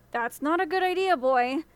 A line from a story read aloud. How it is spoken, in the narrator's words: the old woman said nervously